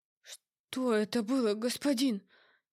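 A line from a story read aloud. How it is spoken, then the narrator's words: Frightened whisper. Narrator (Russian): Испуганно прошептал Лиран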